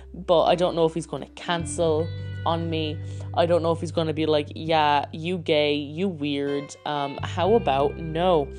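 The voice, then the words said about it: Voice cracking with anxiety. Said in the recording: “my voice is cracking now”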